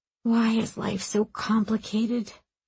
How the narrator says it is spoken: Aram whispered

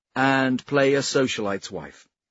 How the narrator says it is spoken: Senlin said merrily

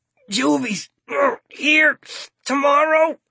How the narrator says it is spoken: Starkey gasps

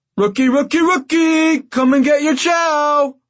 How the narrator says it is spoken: one of the guards chanted in a mock falsetto

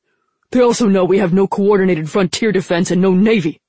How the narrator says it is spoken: Han snapped

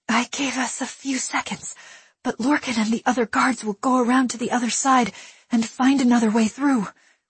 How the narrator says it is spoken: Willa gasped

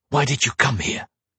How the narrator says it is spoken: hissed

